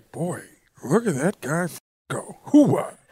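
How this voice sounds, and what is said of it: Mick Foley impression sounding like Al Pacino. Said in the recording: “My Mick Foley impression sounds like Al Pacino”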